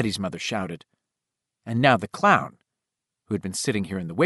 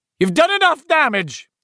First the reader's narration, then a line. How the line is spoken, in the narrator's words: Eddie's ma shouted